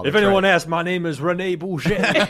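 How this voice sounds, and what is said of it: Mixed Cajun-Jamaican put-on accent. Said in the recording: “I like your Cajun ... sounds a little Jamaican... A little island flavor in there... it's also my Scottish... It's one accent, just an omnibus weird accent”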